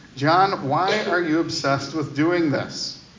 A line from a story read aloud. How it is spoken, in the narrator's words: the staffer asked